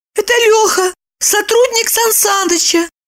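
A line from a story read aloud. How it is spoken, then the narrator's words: Babbled timidly. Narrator (Russian): пролепетала Липочка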